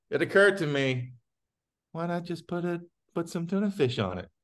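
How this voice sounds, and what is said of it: Imitates another person's voice. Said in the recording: “in my Michael Lisk voice... I'm working on the impression”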